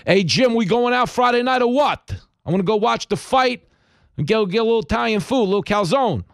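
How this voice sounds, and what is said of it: Staten Island accent like Sylvester Stallone. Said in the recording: “a girl from Staten Island who had the same accent as Sylvester Stallone”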